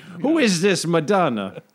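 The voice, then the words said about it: Generic unspecified foreign accent. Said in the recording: “That's uncanny. That accent. ... That's Brennan's generic, unspecified accent. ... I was mocking”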